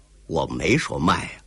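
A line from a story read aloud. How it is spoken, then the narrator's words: Cold. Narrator (Chinese): 寇英杰 冷冷地说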